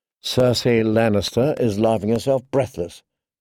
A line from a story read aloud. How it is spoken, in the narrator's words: Catelyn thought wearily